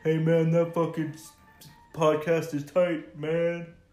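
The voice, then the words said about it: Deep-voiced impression of another person. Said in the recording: “That voice. He does not sound like that ... I have a deep voice ... He has a deep voice”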